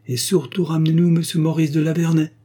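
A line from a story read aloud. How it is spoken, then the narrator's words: Brisk, lively. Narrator (French): dit vivement Marcel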